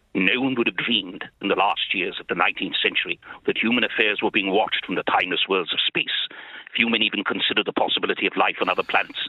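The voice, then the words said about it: Imitates another person's very deep voice. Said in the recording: “Richard Burton was the best... He'd a very deep... Don't change your accent.”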